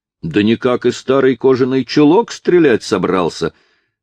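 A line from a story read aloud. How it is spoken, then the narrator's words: Carefree shout. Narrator (Russian): крикнул его беспечный соперник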